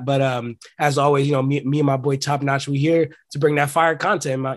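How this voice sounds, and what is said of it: Sick, slightly altered voice. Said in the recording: “I am a little sick, man, so if my voice sounds a little different”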